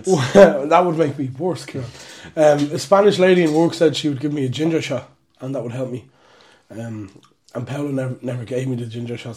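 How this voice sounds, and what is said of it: Raspy voice from a cold. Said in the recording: “I was sick for most of the week ... you can probably hear it in my voice, it's quite raspy. I've had, like, a lingering cold for the past week and a half.”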